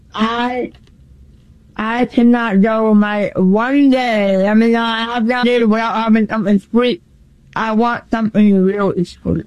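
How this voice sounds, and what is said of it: New England accent. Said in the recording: “I'm from New England ... I could tell by the accent”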